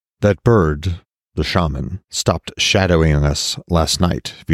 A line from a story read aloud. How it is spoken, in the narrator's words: Vidar said